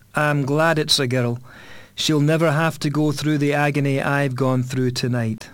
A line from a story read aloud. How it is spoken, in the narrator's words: He heaved a sigh of relief and said